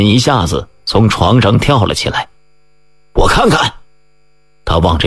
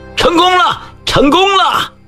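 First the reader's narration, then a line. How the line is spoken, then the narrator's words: Shouting. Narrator (Chinese): 唐小薇、吕敏等喊着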